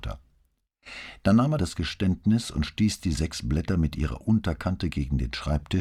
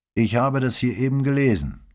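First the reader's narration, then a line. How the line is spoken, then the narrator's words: Plain. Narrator (German): sagte Pater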